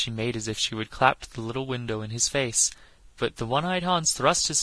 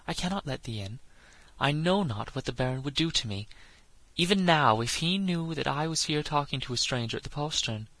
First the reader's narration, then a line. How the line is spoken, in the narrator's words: said the lass in a frightened voice